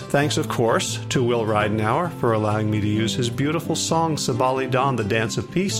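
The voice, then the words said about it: Unusually deep, resonant voice. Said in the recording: “my voice is very deep and resonant this morning ... when I do this in the afternoon, my voice tends to get higher”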